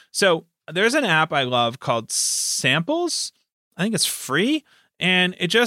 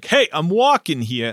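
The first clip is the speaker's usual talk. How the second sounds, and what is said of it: Exaggerated Brooklyn accent. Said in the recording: “that horrible Brooklyn accent ... It still doesn't work.”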